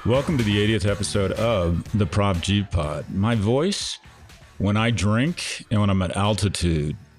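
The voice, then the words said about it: Slightly deeper than usual voice. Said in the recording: “my voice gets deeper ... my voice is just a wee bit deeper”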